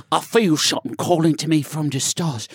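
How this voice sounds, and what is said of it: Put-on British accent. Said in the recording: “he's got like a British accent, right? So he's like,”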